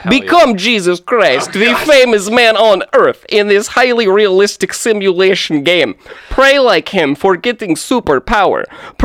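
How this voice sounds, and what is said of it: Deliberately bad Russian accent. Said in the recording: “I'm going to do my best to do a terrible Russian accent.”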